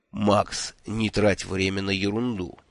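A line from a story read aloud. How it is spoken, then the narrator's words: Soft request. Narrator (Russian): мягко попросил Шурф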